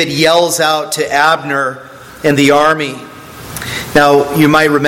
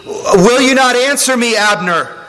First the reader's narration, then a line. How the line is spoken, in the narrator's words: David he yells out to Abner